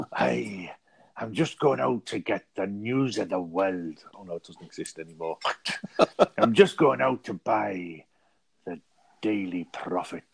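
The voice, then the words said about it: Basic Scottish accent, Bill Shankly impression. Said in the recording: “your Bill Shankly impression ... it's any Scottish man, very basically”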